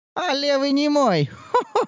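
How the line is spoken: Cawing laugh. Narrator (Russian): Засмеялась знахарка каркающим смехом

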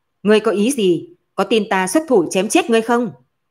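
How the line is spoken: Loud. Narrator (Vietnamese): Từ Sở lớn tiếng nói

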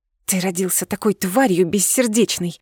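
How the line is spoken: Hissing. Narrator (Russian): прошипела я

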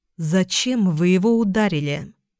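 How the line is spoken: Plain. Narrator (Russian): спросила Эльга

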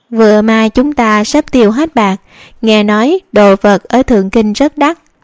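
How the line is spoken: Smiling young man. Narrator (Vietnamese): Hậu sinh mỉm cười ... còn nói

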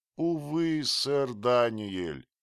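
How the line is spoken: Moaning. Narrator (Russian): простонал

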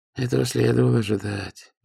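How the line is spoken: Sigh. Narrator (Russian): вздохнул сосед

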